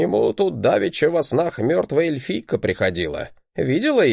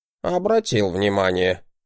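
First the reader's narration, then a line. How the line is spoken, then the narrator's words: Grunt. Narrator (Russian): хмыкнул Вирдман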